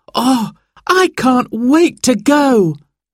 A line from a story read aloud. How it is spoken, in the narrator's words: cried Sarah